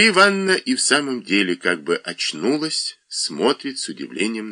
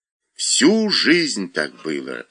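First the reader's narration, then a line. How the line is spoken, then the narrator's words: Plain. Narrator (Russian): ответила Мария Ивановна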